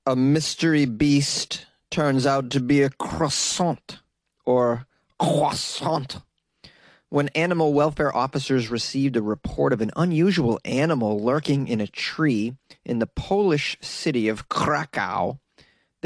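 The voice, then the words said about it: Deliberately terrible put-on accent. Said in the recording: “with a terrible accent today”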